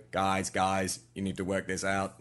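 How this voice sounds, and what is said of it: Weird robot voice. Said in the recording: “that weird voice ... you must have that weird robot voice ... what I think Funky Jack would talk like”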